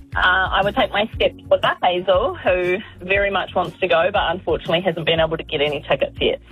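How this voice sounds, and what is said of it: Welsh accent. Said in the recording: “Amazing Welsh accent?”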